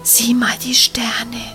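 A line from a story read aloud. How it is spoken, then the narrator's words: Whispered. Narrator (German): wisperte Nele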